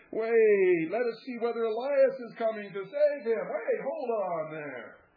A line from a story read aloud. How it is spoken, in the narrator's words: they tried to dissuade him, exclaiming